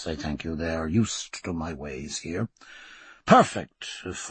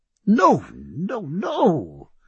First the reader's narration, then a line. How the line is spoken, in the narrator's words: cried Sir Joseph